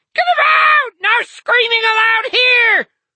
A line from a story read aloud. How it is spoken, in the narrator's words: the other head screamed